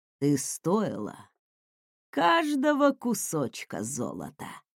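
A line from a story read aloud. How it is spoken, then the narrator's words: Purring. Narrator (Russian): промурлыкал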